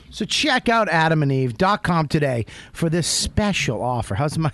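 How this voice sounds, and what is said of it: Put-on sexy voice. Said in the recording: “That's my sexy voice.”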